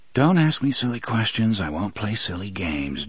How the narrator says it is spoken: Jake muttered

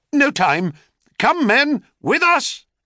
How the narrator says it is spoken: cried Cadmus

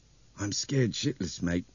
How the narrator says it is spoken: Nick Hopewell said in a strange, hoarse voice

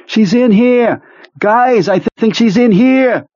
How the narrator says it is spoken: Pete screaming

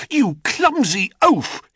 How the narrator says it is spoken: he cried

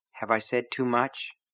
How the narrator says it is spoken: Polly asked

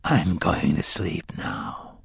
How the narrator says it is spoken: Court whispered calmly

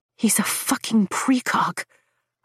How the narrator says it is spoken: I whisper in awe

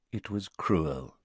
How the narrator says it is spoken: said Dumbledore softly

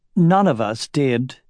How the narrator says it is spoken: said King Orin in a biting tone

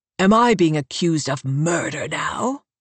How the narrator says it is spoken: North asks, hissing the words through his teeth

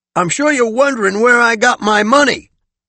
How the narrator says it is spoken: Kellum shouted above the engine

